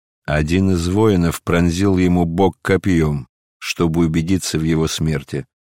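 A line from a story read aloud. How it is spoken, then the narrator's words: Plain. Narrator (Russian): ответил центурион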